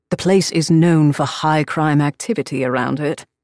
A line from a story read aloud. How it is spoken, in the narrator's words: he drawled impatiently